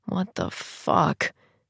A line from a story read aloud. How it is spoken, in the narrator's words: mutter